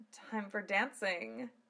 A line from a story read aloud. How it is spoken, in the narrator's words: she purred